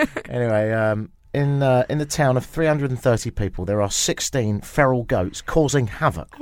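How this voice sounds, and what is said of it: Usual voice. Nothing is said of it.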